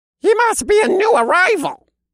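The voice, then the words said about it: Squeaky character voice. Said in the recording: “a squeaky voice said”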